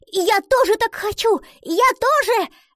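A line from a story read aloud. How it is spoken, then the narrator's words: Exclamation. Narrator (Russian): воскликнула она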